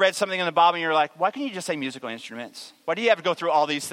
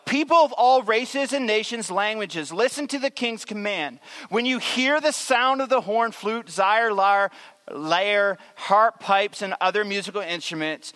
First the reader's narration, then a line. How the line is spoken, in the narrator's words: a herald shouted out